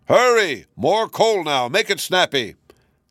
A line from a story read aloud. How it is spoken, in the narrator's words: the giant raised his hands to his mouth and shouted at the little gnomes